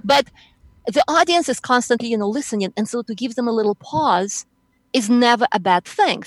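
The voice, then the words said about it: Accented, fast-talking speaker. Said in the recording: “I'm a fast talker ... with my accent, you don't want to speak too fast”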